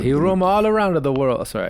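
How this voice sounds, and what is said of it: Put-on Italian accent. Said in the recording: “dumb Italian accent ... That was great ... Pretty good”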